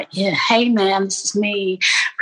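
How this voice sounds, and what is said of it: Weird put-on American accent. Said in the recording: “I was speaking in this really weird American accent”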